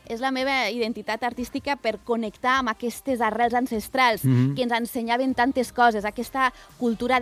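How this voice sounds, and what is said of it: Lleida Catalan accent. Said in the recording (Catalan): “aquest accent de Lleida que tens”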